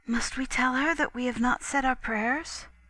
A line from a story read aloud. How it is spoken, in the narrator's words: my little sister whispered